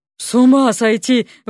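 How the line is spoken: Breathless exhale. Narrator (Russian): выдохнул Алёша

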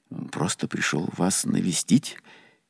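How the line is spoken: Frightened babbling. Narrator (Russian): испуганно пролепетал я

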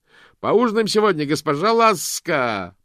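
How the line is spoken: Shouted. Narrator (Russian): прокричал он

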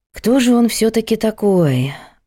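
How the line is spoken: Sigh. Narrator (Russian): вздохнула Надя

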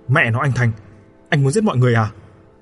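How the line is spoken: Shout. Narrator (Vietnamese): Khánh quát lên

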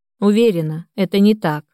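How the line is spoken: Heavy sigh. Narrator (Russian): тяжело вздохнула Анна

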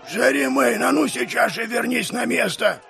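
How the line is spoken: Barking angrily. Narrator (Russian): Рявкнул мастер Флориан

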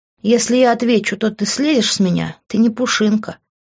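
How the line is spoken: Sighing. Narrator (Russian): вздохнув, сказала она

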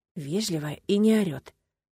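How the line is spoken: Whisper inside the head. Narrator (Russian): прозвучало у меня в голове шепотом

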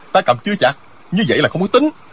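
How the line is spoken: Shocked, angry. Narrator (Vietnamese): Diệu Phong Sứ cả kinh, y giận dữ nói

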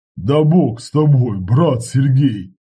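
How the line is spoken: Laughing heartily. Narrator (Russian): ответил и расхохотался

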